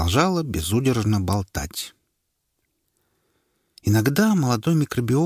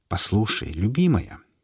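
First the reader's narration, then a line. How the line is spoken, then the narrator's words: Soft, as to a child. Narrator (Russian): мягко произнес микробиолог, будто он общался не со взрослым человеком, а с маленькой капризной девочкой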